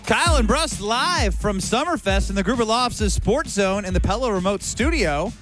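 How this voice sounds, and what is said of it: Radio announcer voice. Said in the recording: “Why'd you go radio announcer voice there?”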